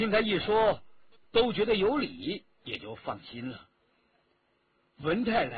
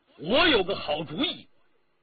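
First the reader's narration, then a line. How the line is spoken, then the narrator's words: Loud. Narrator (Chinese): 一个人大声地说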